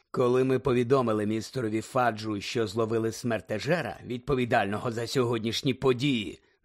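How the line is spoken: Low voice. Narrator (Ukrainian): низьким голосом сказав Снейп

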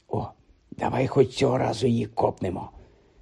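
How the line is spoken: Whispered in ear. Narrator (Ukrainian): зашепотів Рон на вухо Гаррі

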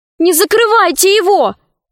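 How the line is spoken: Shouting. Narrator (Russian): крикнула она Синдбаду-мореходу

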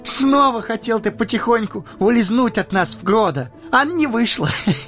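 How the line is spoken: Laughing through tears. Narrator (Russian): Рассмеялся сквозь слезы Пипин

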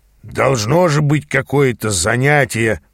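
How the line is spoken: Grumbling. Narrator (Russian): бурчал Ааз

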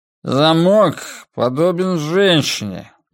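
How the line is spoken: Inarticulate mumble. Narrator (Russian): нечленораздельно промямлил он

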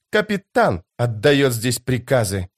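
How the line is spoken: Pale, through gritted teeth. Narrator (Russian): бледнее процедила она

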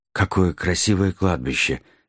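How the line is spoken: Envious breathy exhale. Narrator (Russian): завистливо выдохнул Нед Гамильтон

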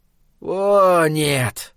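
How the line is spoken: Drawn-out drawl. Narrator (Russian): Протянул Схал

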